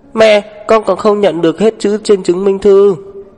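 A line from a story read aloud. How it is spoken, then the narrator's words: Child shouting. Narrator (Vietnamese): tiểu đồ tử hét về phía cô chủ nhà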